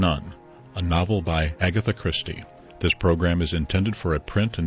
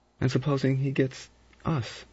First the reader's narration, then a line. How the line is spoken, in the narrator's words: Lombard said softly